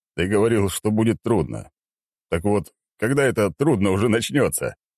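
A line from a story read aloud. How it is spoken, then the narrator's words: Chuckling. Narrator (Russian): хохотнул он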